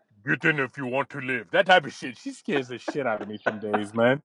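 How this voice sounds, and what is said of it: Put-on Austrian accent. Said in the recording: “like an Austrian accent”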